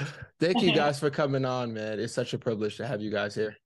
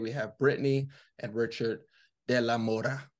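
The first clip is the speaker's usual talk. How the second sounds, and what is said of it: Put-on accent with rolled R. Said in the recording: “I wanted to have an accent... I love how you pulled the R.”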